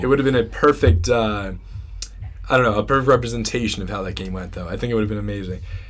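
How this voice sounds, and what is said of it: Hoarse voice. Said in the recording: “sorry, guys, for my hoarse voice here. Getting a little under the weather”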